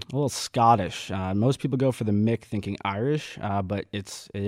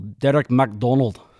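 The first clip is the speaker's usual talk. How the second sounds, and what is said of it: Put-on Scottish accent. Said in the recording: “my best Scottish accent? ... Oh, that was good.”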